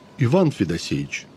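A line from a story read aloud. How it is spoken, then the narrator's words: Soft reply. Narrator (Russian): мягко и сукаризный отвечал рыбак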